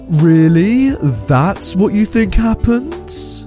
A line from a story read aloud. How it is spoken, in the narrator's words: He said, in an incredibly condescending voice